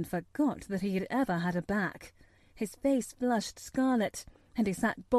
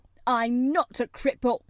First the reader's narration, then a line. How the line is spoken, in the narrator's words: he cried up furiously